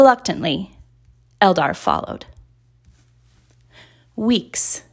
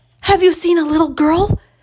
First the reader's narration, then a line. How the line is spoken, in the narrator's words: gasped